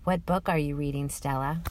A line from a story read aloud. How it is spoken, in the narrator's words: Bell says in a quiet voice